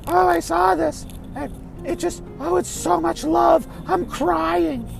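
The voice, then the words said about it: Exaggerated gushing mock voice. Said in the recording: “I don't know why I'm doing a voice.”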